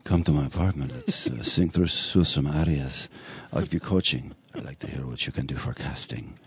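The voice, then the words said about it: Impersonation of a man's voice. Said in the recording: “a good impersonation of him”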